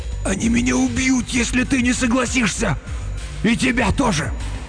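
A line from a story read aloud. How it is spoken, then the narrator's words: Hoarse wheeze. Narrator (Russian): Он прохрипел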